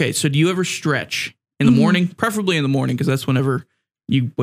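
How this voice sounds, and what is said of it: Usual voice. Nothing is said of it.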